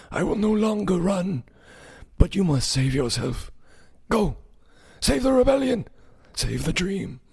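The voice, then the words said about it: Bad impersonation of a film character. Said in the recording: “another bad impersonation.”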